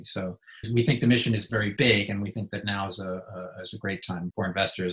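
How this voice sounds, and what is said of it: American accent. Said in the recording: “You can tell from my accent, I'm from the US.”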